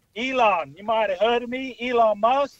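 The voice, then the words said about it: Part South African, part American accent. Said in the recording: “What accent is that? Is that part South African, part American?”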